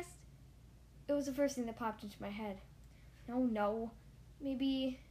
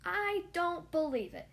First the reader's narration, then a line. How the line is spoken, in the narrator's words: he exclaimed